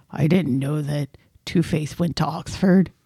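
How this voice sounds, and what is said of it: Imitates another person's voice. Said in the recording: “that's my Christian Bale impersonation”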